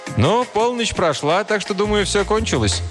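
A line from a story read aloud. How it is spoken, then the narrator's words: Cheerful. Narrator (Russian): Один из них весело сказал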